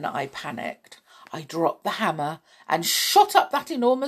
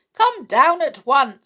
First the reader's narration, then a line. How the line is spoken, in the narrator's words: called out